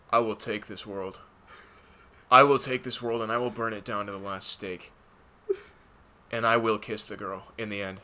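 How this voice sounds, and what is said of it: Super monotone, low-energy actor voice. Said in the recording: “Do a super monotone voice talking about the Nine Realms or whatever ... You had 30% more energy than he did in that movie.”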